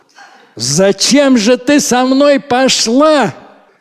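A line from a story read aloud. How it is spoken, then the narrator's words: Shout. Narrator (Russian): закричал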